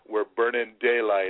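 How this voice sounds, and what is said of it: John Wayne impression. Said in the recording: “as John Wayne used to say. That's my John Wayne impression there.”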